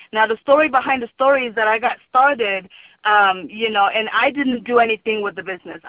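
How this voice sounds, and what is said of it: Cameroonian accent. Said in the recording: “some of you guys could hear my accent. I'm originally from Cameroon in Africa.”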